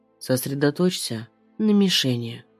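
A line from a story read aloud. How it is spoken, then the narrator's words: Husky seductive whisper close. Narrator (Russian): звучит хриплым соблазном его голос у самого уха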